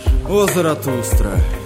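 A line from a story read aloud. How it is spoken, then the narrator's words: Sad voice. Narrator (Russian): начал он печальным голосом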